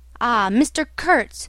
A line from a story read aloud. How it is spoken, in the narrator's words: exclaimed